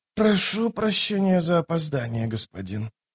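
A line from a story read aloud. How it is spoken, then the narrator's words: Hoarse exhausted voice. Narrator (Russian): проговорила хриплым от изнеможения голосом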